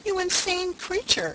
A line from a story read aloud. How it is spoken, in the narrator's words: she cried